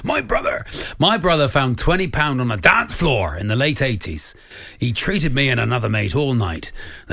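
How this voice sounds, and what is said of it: Put-on Cornish accent. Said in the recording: “do it in the Cornish accent ... You've gone very Cornwall”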